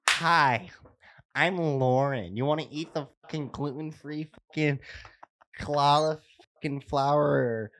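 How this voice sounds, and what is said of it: Imitates another person's voice. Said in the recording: “you want to hear my best accent? ... you want to hear my Lauren?”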